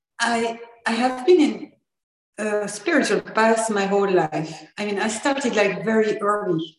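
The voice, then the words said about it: French accent. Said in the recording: “I'm from France, so I'm already sorry for my accent.”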